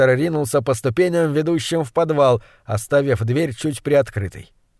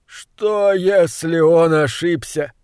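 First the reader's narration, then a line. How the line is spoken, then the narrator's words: Moaning. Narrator (Russian): стонал бедняга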